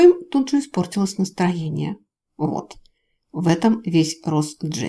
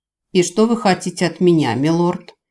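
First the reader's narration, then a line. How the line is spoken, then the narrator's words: Angry woman grumbling. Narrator (Russian): зло буркнула женщина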